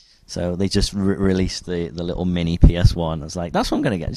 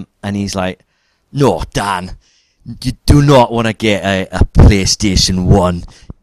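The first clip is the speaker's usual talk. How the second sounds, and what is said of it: Weak Scottish accent, sounds Geordie. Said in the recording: “Scottish guy ... that was kind of Geordie. That wasn't very good.”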